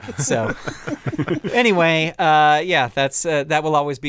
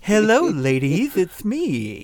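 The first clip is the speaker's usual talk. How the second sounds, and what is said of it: Goofy, dorky ladies' man voice. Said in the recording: “going to do this really goofy voice... what's the dorkiest voice he could have as a ladies' man”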